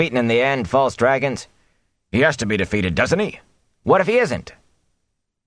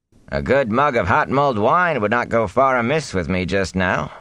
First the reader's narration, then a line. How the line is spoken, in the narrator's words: the peddler replied with a chuckle